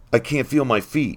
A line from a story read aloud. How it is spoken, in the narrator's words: gasped